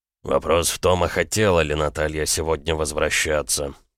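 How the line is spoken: Spoken through teeth. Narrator (Russian): процедил Макеев

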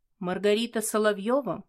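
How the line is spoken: Plain. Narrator (Russian): спросил он

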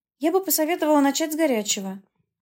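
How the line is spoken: Cheerful. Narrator (Russian): проговорила я весело

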